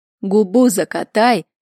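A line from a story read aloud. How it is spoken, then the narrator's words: Official barking. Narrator (Russian): рявкнул слуга народа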